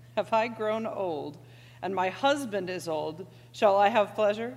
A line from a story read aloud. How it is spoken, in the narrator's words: Sarah laughed to herself, saying